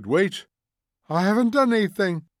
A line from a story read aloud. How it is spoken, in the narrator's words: cried the old man, trembling